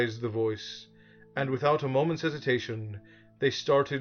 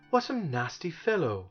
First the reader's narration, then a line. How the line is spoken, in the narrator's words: gasped Milo, who was having great difficulty just getting his legs to move